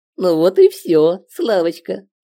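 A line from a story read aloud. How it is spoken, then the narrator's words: Giggling inner voice. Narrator (Russian): хихикнул человек в моей голове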